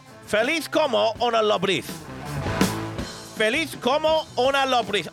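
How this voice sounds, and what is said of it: Attempted Spanish accent. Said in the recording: “my accent, if you listen to that accent, right, I'm actually getting that accent”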